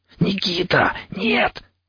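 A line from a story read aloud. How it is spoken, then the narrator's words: Hissed. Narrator (Russian): зашипел я вслед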